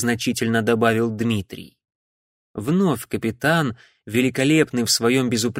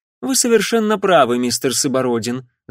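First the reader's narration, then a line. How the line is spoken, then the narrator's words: Casual tone. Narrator (Russian): заметил он небрежным тоном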